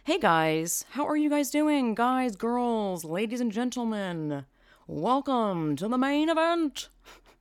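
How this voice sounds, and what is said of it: Announcer-style radio voice. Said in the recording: “I don't know why I do always do that voice. Maybe it's my radio voice.”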